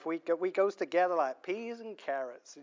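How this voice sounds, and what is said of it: Put-on American accent. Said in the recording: “Apologies for my American accent there.”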